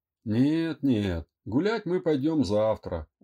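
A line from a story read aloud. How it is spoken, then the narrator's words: Tired dismissive tone. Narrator (Russian): устало отмахнулся Андрей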